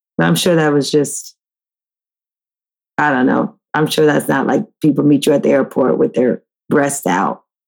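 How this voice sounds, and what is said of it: Tired, mumbling speech. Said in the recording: “I'm a little tired. That's why I'm mumbling.”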